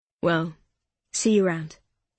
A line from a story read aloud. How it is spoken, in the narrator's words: he said